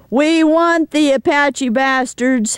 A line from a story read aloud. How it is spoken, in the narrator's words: Jesus shouts